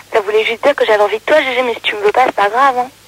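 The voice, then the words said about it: Hoarse, broken voice. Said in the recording (French): “j'ai juste la voix cassée ... t'as ta voix cassée”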